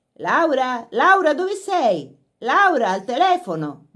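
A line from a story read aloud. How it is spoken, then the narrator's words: Shouting from the house. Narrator (Italian): gridò una voce dalla casa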